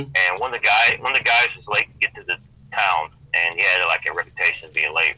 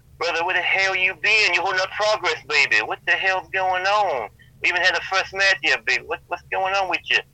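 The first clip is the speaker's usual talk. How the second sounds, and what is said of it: Dusty Rhodes impression. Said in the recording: “Impersonating Dusty Rhodes, because they knew I did a pretty good impersonation”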